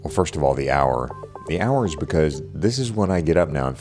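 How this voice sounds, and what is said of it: Hushed, quiet voice. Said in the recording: “speaking in a hushed voice ... I'm talking in a hushed voice”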